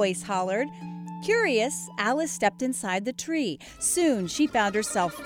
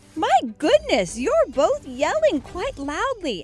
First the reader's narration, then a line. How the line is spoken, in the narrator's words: exclaimed